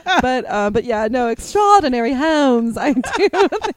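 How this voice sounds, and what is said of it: Deliberately bad put-on British accent. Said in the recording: “this is my terrible British accent.”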